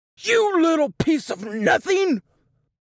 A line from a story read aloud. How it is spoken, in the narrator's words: roared